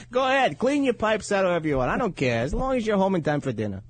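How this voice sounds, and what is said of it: Brooklyn housewife accent. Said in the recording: “my wife talks like a Brooklyn housewife.”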